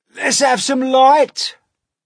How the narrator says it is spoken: shouted the centipede

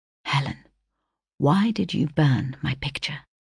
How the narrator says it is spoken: Huntingdon addressing me in a confidential whisper, said

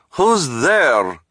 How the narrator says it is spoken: Madame Lulu called out

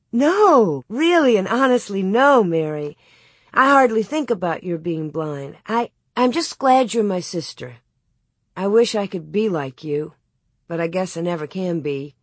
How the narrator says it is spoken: Laura sighed

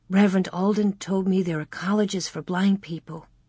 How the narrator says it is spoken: Mary whispered

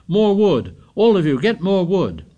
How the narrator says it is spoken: Ralph shouted

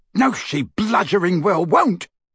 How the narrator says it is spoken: bellowed Amicus

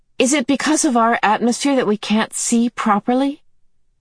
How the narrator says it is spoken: She asked anxiously

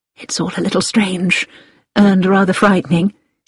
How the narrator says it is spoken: said Hilary

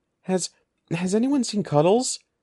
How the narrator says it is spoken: Evan gasped

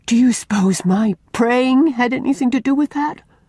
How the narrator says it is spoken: she cried imploringly to Una

